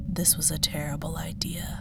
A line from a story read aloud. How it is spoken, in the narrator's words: Kareem muttered under his breath